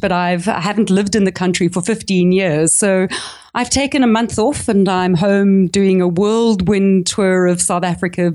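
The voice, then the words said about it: South African accent. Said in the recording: “I'm actually South African, if you can hear it by my accent”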